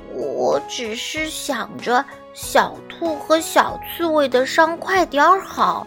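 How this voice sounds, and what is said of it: Shy quiet whispered voice. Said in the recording (Chinese): “难为情的低下了头， ... 小声”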